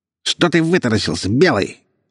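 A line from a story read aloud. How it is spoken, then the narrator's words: Angry nasal fat man yelling. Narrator (Russian): зло завопил гнусавый толстяк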